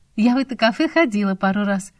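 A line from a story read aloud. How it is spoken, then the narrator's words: Laughing. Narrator (Russian): засмеялась я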